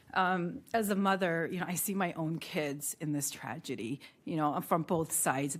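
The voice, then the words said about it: Emotional, choked-up speaking voice. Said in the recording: “I'm gonna get emotional”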